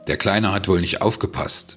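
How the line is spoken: Barked, feigned innocence. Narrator (German): bellte er mit gespielter Unschuld

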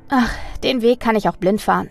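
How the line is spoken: Calm, tired reply. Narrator (German): antwortete Mina mit ruhigem Ausdruck und lächelte Hannah müde an

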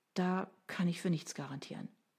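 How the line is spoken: Woman sighing. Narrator (German): seufzte sie

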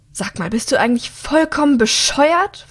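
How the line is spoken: Hissing, angry. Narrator (German): faucht an

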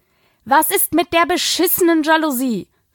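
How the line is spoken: Calling after someone. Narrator (German): rief sie ihm hinterher

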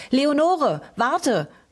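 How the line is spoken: Called out. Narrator (German): rief sie

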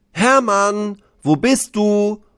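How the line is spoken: Called out. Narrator (German): ruft er

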